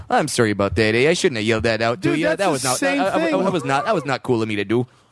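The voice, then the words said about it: Imitated Edmonton Canadian accent. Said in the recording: “in the perfect like Edmonton accent”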